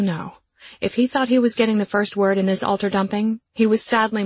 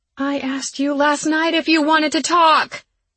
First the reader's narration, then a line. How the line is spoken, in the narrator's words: Each word in the sentence became progressively louder until I was shouting the final bit